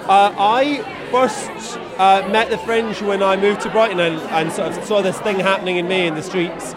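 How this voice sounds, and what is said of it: Slight Glasgow Scottish accent. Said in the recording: “I am from near Glasgow, hence the accent ... slight ... Accent ... I thought you were Welsh”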